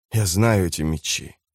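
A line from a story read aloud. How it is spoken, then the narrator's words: Whisper. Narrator (Russian): прошептал он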